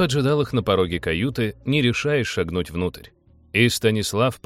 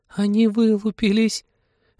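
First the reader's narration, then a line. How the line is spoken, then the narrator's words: Joyful squeal. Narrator (Russian): Радостно взвизгнула Полина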